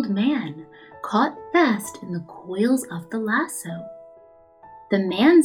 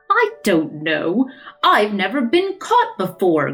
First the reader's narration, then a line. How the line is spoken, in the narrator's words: growled Father Time